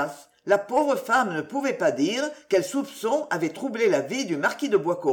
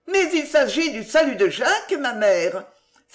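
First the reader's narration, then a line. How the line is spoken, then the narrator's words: Exclaiming. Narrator (French): s'écria mademoiselle Denise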